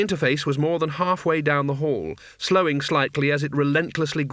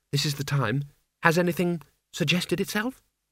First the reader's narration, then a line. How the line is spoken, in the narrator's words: she said quietly